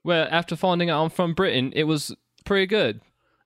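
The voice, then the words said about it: Put-on English accent. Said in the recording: “it's going to be my English accent ... with that accent ... I could speak in this accent”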